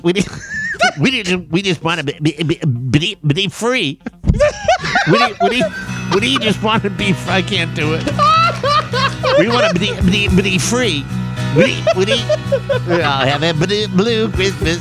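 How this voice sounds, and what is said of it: Porky Pig impression. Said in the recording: “Porky pig impression.”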